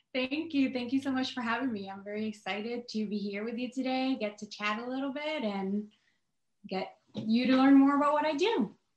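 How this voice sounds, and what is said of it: Noticeable foreign accent. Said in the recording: “your beautiful accent”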